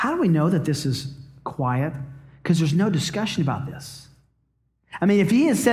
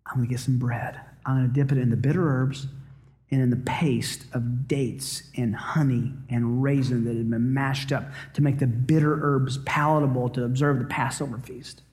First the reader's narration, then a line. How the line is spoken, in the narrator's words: Jesus, in a low voice, must have said